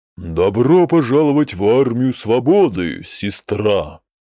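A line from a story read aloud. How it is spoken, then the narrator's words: Solemn. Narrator (Russian): торжественно произнес он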